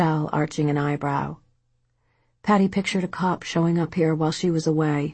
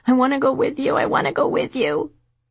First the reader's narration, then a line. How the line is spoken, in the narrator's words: Libby was bawling louder, a howling animal, screaming